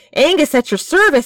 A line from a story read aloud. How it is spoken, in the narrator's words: he declared breathlessly